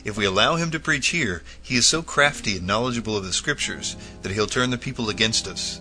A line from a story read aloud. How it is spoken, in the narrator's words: The assembled prelates exclaimed